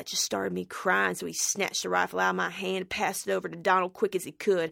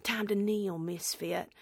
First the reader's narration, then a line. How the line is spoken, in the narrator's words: whisper